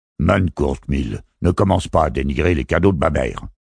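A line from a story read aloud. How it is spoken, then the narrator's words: Male voice scolding. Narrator (French): gronda une voix masculine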